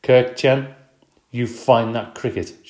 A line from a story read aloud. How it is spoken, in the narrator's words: she said in a very stern voice